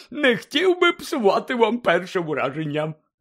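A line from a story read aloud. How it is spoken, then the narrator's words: Explaining with a happy grin. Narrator (Ukrainian): пояснив, радісно шкірячись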